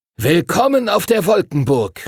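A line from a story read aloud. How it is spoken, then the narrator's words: Calling out. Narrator (German): rief Master Duncan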